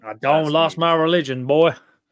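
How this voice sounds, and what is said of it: Put-on Southern American accent. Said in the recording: “It's a southern term ... Whenever you use that accent, it's just like, boy.”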